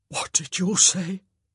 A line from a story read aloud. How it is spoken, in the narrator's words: The Duke whispered, tears forming in his eyes